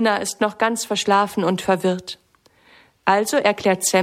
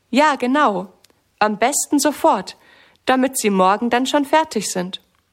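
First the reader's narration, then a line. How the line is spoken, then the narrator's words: Plain. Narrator (German): sagt Sammy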